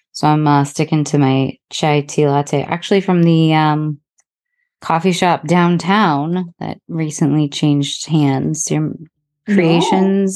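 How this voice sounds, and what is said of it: Hoarse, croaky voice. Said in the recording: “I've got a bit of a frog in my throat, maybe a cold”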